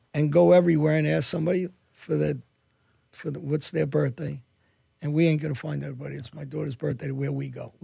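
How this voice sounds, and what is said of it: Speaks with a noticeable accent. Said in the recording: “she loves your accent ... It's a good accent, you know? It's a good accent.”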